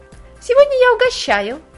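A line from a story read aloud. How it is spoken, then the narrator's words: Guilty babbling. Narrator (Russian): пролепетала и виновато улыбнулась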